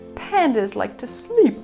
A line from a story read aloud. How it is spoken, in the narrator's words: yawned Pang